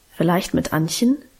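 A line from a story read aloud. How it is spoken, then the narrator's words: Plain. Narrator (German): sagte sie dann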